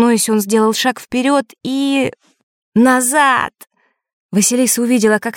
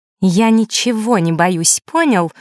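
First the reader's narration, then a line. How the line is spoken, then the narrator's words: Through gritted teeth. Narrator (Russian): процедила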